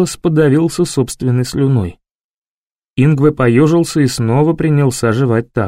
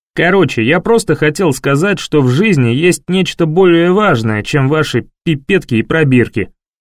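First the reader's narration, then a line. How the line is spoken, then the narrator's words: Angry conclusion. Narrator (Russian): сердито заключил Винсент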